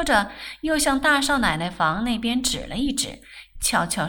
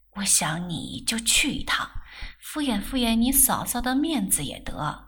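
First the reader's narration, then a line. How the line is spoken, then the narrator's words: Low voice. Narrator (Chinese): 沈太太低声道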